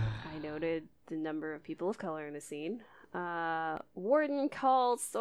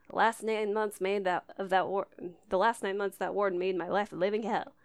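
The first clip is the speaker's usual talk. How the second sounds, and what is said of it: Poor put-on Southern accent. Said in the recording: “That was awful accent.”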